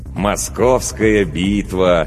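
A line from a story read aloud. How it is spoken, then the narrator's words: Dreamy drawl. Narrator (Russian): мечтательно протянул лейтенант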